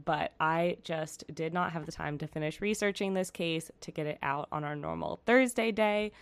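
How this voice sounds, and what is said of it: Slightly raspy voice. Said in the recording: “hear it in my voice. I'm still a little raspy, but I don't think it's too bad”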